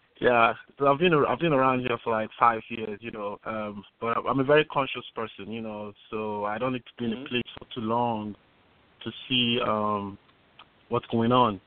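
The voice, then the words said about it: Nigerian accent. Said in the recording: “you can get from my accent that, you know, I'm actually Nigerian”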